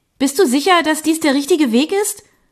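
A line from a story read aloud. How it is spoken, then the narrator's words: Called out. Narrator (German): rief ich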